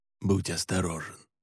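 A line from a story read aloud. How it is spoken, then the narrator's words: Whispering. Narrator (Russian): прошептал Александр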